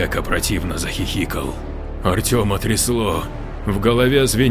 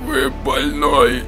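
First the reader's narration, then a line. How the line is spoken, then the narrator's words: Strained, retching. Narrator (Russian): Только и смог выдавить из себя Артем, корчась от рвотных позывов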